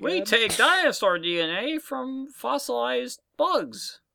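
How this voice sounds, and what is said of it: Cartoon character voice impression. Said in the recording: “A great impression.”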